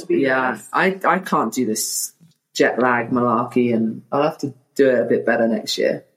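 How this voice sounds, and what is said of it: British accent. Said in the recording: “So posh ... If Americans hear a British accent, we just assume posh”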